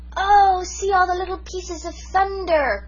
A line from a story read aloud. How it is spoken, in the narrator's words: cried Jims in delight